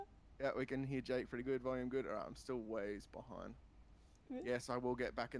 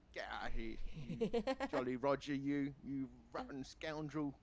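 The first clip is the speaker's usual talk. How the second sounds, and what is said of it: Put-on English accent. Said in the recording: “my English is bad accent”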